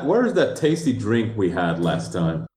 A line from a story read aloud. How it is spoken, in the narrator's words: He chuckles